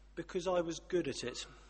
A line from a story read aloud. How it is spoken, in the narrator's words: my grandfather said very, very quietly and very sadly